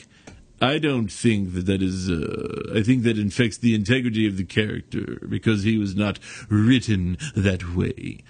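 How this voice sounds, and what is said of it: Imitates another person's voice. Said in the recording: “That was my George Takei impression.”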